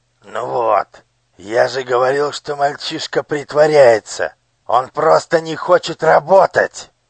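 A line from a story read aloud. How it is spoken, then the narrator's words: Overseer's growl. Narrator (Russian): прорычал надсмотрщик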